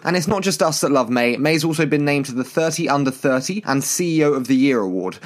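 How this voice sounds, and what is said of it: British accent. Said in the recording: “this terrible British accent”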